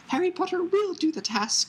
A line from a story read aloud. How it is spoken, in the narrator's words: squeaked the elf